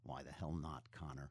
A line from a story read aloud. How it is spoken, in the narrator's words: he muttered